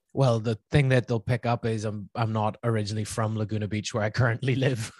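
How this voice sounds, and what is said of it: Northern Irish accent. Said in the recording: “my somewhat still there Northern Irish accent”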